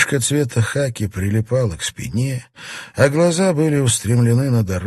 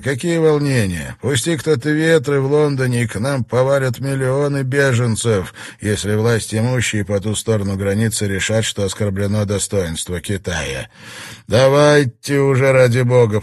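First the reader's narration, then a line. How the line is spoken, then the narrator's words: Grumbling. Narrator (Russian): проворчал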